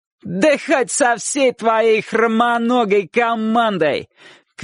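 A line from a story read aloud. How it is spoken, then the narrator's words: Shouted reply. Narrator (Russian): крикнул тот в ответ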